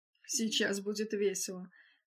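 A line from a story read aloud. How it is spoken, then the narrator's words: Muttered into ear. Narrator (Russian): пробормотал Эдвард на ухо Вендалу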